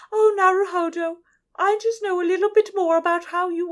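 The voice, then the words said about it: Deliberately silly put-on accent. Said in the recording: “I'm doing a really stupid accent”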